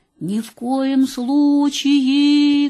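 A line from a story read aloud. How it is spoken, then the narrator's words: Muffled from well. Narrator (Russian): глухо ответила мама из колодца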